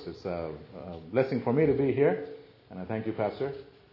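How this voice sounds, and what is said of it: Indian English accent. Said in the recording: “I'm from the country of India, born and raised in India. ... I sound a little different”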